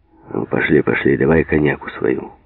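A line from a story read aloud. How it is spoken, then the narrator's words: Almost rough. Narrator (Russian): почти грубо сказал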